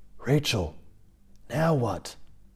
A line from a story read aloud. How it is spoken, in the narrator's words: stage whispered again